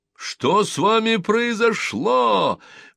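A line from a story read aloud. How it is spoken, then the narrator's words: Loud shouting crowd, laughing. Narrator (Russian): громко кричали ему все люди и все хохотали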